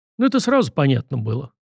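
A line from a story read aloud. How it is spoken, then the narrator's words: Skeptical snort. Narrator (Russian): хмыкнул Сашка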